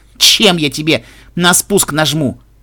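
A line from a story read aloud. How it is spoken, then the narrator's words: Snorting. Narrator (Russian): Фыркнула Пегаска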